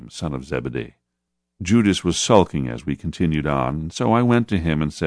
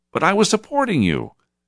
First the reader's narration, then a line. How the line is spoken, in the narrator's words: Judas looked hurt as he exclaimed